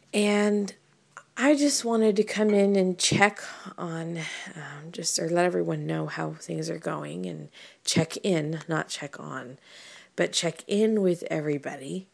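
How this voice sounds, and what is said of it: Congested, slightly dry voice. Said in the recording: “Thankfully my voice is starting to clear up a little bit. In the morning I always have issues with congestion and even my throat's still a bit dry.”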